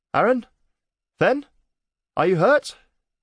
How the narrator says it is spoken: Mara shouted from the bottom of the shaft

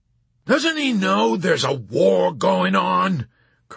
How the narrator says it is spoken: Colonel Cathcart yelled out suddenly

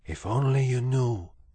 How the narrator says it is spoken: whispered Roscuro

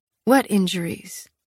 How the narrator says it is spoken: Castile sighed behind me

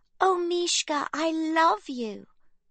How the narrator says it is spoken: Livy teases in a high, squeaky voice

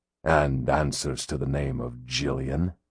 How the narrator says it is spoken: Ramsay said with a gusty sigh

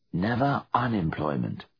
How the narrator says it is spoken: whispered Giles

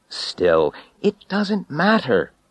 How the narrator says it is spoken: I said crossly

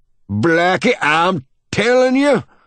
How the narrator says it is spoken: shouts the old man

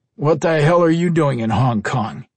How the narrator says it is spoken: Henry asked in a gruff tone

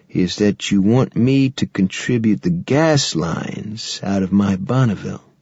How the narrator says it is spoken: Randy said slowly

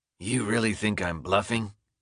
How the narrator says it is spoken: the stranger says, in a raw, scratchy voice

